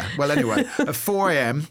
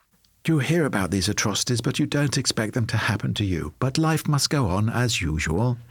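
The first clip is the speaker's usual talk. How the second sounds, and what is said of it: Impression of Margaret Thatcher. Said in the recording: “Thatcher emerged from the police station to a media scrum, and she said to the cameras ... Not a bad impression, do you think? ... Not a bad impression.”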